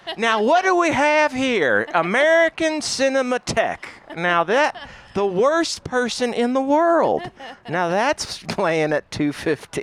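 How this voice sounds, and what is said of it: Imitates another person's voice. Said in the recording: “good Huel impression ... I think it was perfect. ... I'm going to give it a 4.”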